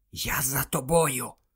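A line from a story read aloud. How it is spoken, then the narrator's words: Whisper in ear. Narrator (Ukrainian): прошепотів він на вухо Герміоні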